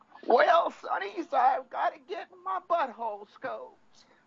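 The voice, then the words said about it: Cranky old man voice. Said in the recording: “you have to use your cranky old man voice. You got a cranky old man voice there?”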